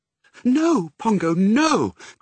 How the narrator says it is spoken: cried Mrs

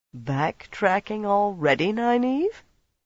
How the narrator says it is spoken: Somehow he managed a derisive sneer

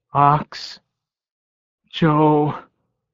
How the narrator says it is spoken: groaned

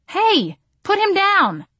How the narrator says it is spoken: I yelled

